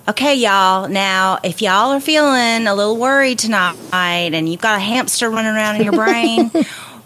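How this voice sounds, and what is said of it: Exaggerated North Carolina accent, with verve. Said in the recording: “in a North Carolina accent. Say all that with a lot of verve in your North Carolina accent.”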